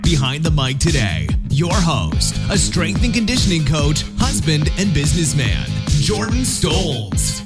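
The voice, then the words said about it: Cheesy announcer radio voice. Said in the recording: “that glorious radio voice. Some would say cheesy”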